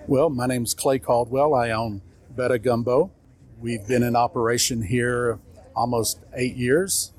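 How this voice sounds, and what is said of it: Non-local regional accent. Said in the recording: “people can tell by your accent you're not from here”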